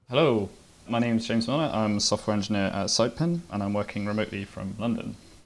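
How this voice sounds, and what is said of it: Speaks with a noticeable accent. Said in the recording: “That explains the accent.”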